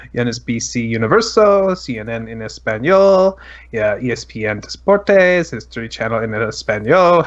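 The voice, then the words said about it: Put-on Spanish pronunciation. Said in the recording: “How's my accent there?”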